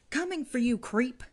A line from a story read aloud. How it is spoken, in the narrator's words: charge out, shouting